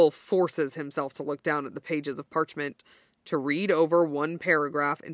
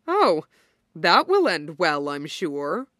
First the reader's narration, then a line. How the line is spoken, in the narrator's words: Dorian says, with a bark of laughter